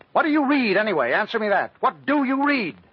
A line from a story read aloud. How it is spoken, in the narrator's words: with all the dramatic suddenness of an experienced prosecutor, she snapped at the defendant